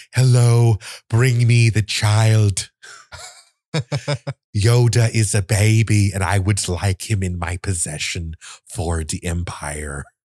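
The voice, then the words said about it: Imitates another person's bizarre accent. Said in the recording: “He's got a bizarre accent and I'm not too far off ... yeah, that was pretty good.”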